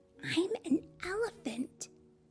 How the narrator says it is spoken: she whispered

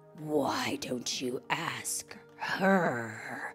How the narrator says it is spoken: growled the tiger

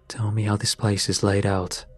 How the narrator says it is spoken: said

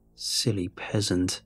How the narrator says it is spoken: she said, her voice turning cold

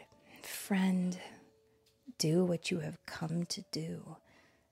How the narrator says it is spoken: Jesus whispered

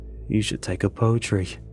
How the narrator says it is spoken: Amir mutters

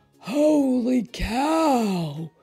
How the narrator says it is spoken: hollered Manny the cook

